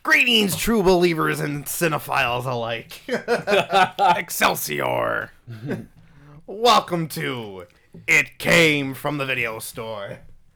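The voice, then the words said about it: Imitated voice, sounds Crypt Keeper-like. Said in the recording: “do my Stan Lee voice ... It's more like Crypt Keeper than Stan Lee.”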